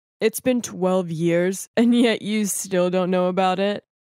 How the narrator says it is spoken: One of the men just laughed and said

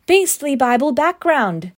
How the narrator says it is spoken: she replied more loudly

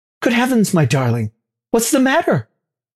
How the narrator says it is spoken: I cried

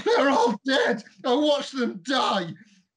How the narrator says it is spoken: that same woman's voice scream

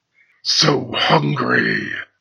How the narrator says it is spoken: Falkir growled

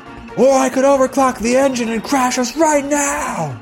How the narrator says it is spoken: she shouts back from the engine room

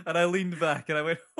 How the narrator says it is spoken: I chuckled, much like Father Christmas

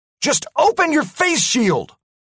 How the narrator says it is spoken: I yelled at MacDougall

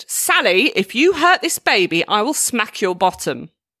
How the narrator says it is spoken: His grandma shouted

